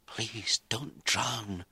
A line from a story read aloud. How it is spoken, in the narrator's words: she whispered